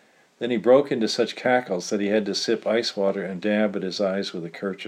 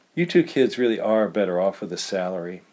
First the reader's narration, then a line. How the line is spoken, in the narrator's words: added Tug in a kindly tone